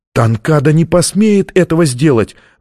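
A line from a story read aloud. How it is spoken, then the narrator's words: Exclamation. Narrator (Russian): воскликнула она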